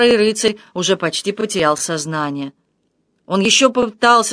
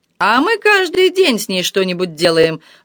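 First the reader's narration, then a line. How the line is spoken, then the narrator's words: Coarse laughter. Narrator (Russian): грубо захохотал Тесен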